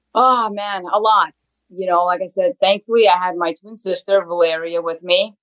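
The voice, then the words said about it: New Jersey accent. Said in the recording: “your accent is so New Jersey”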